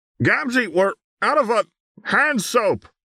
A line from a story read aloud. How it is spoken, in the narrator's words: Tavro shouted from the bathroom